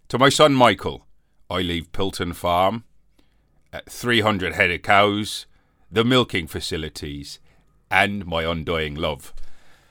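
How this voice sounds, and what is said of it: Put-on Somerset accent. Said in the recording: “that's not his accent, is it? He's from Somerset.”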